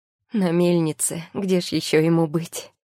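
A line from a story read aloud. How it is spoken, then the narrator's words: Tearful joyful woman, smiling. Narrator (Russian): Сквозь слезы радости на глазах улыбается женщина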